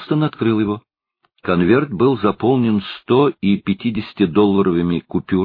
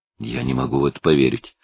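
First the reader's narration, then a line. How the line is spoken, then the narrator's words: Muttering. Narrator (Russian): пробормотал Хелстон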